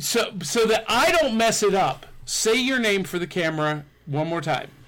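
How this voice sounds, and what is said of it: Usual voice. Nothing is said of it.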